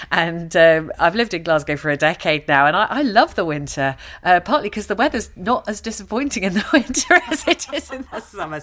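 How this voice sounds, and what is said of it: London English accent. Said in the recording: “I'm actually a Londoner, as you can probably tell from my accent.”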